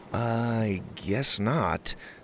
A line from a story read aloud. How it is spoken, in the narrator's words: Winston replied weakly